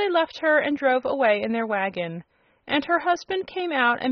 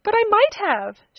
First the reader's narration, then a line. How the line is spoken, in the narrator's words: she exclaimed, and began to cry again